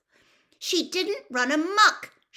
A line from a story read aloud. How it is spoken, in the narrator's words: shouted Hermione